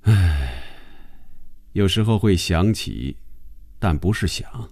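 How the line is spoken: Calm, flat reply. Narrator (Chinese): 红军淡淡的回答

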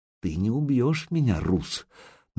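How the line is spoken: Almost a whisper. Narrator (Russian): девка говорила почти шепотом

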